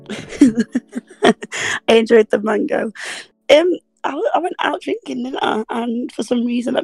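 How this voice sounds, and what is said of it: Croaky, raspy voice. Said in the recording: “Very croaky. ... I'm very raspy, I am.”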